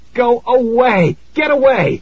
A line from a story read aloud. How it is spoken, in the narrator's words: I screamed